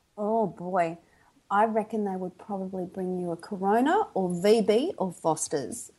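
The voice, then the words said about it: Australian accent. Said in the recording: “that's my Aussie accent”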